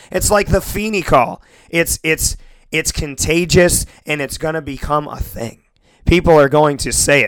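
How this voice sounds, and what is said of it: Hoarse voice. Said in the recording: “my voice is hoarse”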